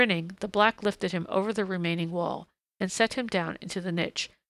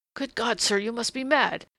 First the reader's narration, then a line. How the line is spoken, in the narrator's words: he said in a strained, sharp voice that his ears would not have known as his own